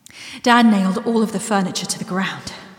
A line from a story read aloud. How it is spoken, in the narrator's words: I announced breathlessly